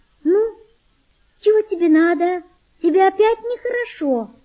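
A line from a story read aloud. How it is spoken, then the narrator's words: Thin tender voice. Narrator (Russian): сказала она тонким нежным голосом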